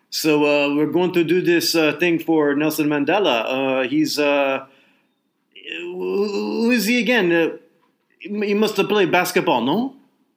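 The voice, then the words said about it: Put-on Quebec French accent. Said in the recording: “forgive my Quebec accent ... I'm half Quebecer, so I, I think I can do this”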